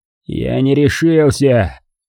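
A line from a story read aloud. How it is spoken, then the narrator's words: Grumbling. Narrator (Russian): проворчал он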